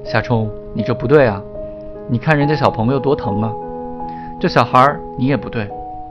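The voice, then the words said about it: Gentle, falsely sweet voice. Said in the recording (Chinese): “他又换了一个温柔又虚假的声音说”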